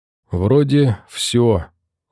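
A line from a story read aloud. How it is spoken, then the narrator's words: Crushed, dejected voice. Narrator (Russian): убитым голосом произнесла она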